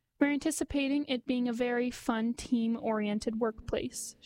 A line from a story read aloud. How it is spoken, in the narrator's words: she said